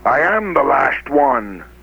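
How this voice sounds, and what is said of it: Imitates an actor voicing a dragon. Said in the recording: “the one where Sean Connery plays a big dragon ... my impression of that ... I got an impression of it ... That's actually not too bad.”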